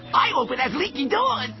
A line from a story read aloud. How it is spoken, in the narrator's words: cried the second